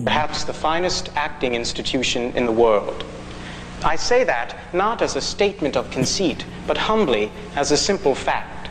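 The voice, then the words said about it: Affected, theatrical acting voice. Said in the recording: “that's not his real voice, right? He's doing that fake acty voice.”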